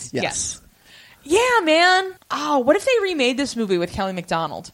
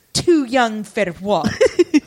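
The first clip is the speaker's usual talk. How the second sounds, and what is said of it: Put-on Scottish accent. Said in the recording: “Scottish accent”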